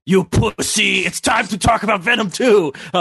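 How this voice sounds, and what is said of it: Gruff character voice, action-star-like. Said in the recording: “Oh, that's kind of like Schwarzenegger a little bit. ... Why do you sound so much like Arnold Schwarzenegger”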